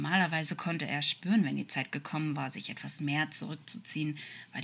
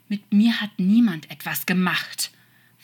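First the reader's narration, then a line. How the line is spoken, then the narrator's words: Snarling angel. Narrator (German): fauchte der Engel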